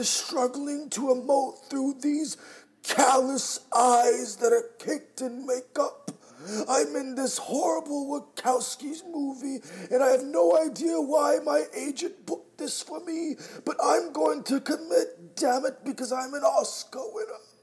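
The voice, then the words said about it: Imitates another person's voice. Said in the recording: “going to go ahead and do his impersonation. I'm Eddie Redmayne.”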